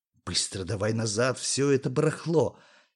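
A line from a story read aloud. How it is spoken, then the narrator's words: Quiet. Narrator (Russian): тихо сказал Юре Сашуня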